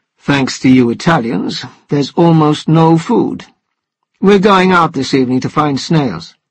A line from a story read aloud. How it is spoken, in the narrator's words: Stiffly, the doctor said